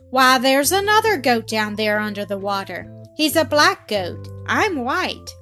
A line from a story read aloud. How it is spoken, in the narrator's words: he exclaimed to himself